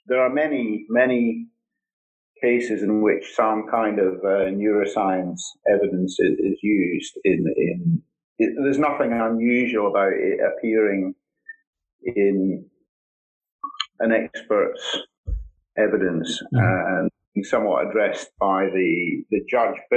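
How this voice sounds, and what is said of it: Scottish accent. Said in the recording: “despite my Scottish accent”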